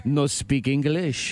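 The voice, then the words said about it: Put-on French accent. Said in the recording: “in a French accent.”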